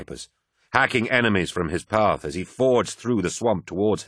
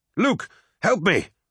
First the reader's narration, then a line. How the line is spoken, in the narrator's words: cried Vipers